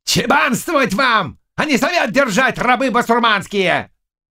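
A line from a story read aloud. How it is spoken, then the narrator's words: Shouting. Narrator (Russian): Он закричал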